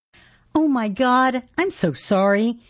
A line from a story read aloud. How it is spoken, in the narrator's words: the girl said